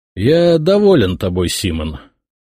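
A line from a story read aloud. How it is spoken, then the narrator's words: Lazy. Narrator (Russian): лениво сказал я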